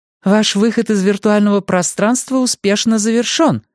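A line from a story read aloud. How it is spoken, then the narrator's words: Cheerful. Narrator (Russian): радостно говорит Windows Home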